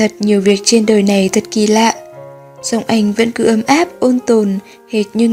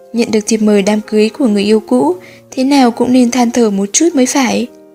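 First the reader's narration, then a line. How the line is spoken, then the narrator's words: Laughing. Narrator (Vietnamese): Tô Vận Cẩm lại bật cười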